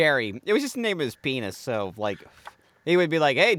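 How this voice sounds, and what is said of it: Usual voice. Nothing is said of it.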